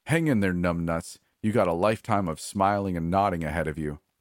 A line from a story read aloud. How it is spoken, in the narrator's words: He laughed and said